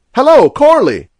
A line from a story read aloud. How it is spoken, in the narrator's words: he cried again